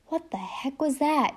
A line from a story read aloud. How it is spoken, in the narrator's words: whispered